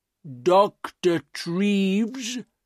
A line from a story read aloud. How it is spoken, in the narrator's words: he said slowly